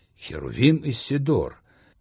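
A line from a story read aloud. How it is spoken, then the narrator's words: Near-delighted exclamation. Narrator (Russian): Едва ли не с восторгом воскликнул я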